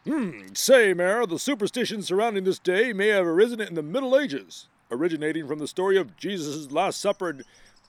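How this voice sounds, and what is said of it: Ted Baxter newscaster voice impression. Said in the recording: “Probably shouldn't read this in a Ted Baxter voice.”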